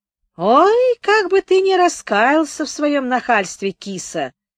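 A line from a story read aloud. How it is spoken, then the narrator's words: Sing-song woman's voice. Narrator (Russian): сказала нараспев женщина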